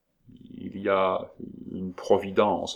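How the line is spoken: Stammering. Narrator (French): balbutia-t-elle

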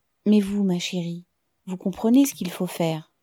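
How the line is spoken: Gentle interruption. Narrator (French): Tatiana l'interrompit doucement

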